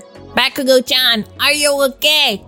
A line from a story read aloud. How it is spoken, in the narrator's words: Sue shouted out of the window